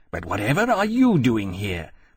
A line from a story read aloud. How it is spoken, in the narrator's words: Temeraire exclaimed